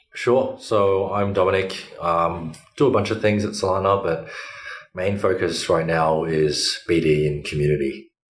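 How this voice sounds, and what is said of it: Australian accent. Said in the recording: “You have a nice Australian accent ... from Melbourne”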